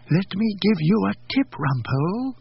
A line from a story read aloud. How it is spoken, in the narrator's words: she whispered